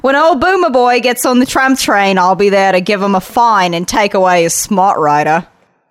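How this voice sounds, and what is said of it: Australian accent. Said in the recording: “Australian. You get an accent”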